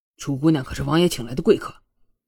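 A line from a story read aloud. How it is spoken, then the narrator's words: Cold. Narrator (Chinese): 楚墨冷声道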